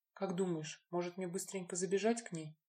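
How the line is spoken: Whisper. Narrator (Russian): шепнула Лина

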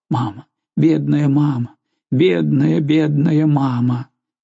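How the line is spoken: Sobbing babble. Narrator (Russian): содрогалась от рыданий, и он лепетал

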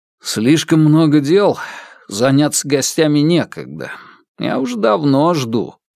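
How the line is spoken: Muttered. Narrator (Russian): буркнул я

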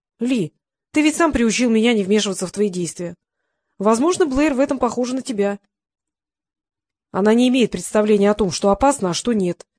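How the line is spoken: Angry. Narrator (Russian): сердито сказал Ли

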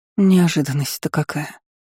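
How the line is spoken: Muttering. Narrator (Russian): пробормотала Аннабель Дель-Юис

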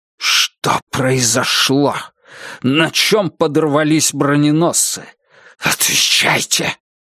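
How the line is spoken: Hissing whisper. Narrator (Russian): каким-то свистящим шепотом произнес Георг

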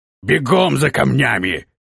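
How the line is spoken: Roaring. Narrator (Russian): проревел полусотник

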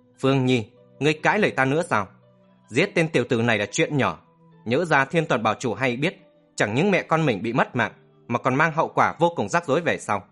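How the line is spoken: Alarmed harsh shout. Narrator (Vietnamese): Bảng Giã Lang thất kinh, gằn giọng thét

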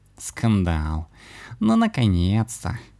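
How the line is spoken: Laughing. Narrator (Russian): рассмеялся кот

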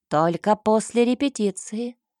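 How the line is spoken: Stern reply. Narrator (Russian): строго отозвался господин Градек

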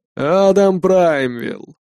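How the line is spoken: Portly man introducing himself. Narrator (Russian): представился пузанчик

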